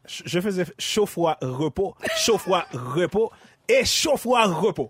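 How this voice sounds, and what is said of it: Creole accent. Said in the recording (French): “Peux-tu dire chaud, froid, repos avec ton accent créole?”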